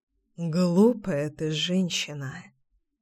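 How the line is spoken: Muttered. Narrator (Russian): пробормотал Пчелкин

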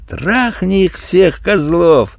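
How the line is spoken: Joyful. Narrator (Russian): добавил радостно

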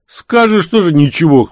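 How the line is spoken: Skeptical snort. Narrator (Russian): хмыкнул тот

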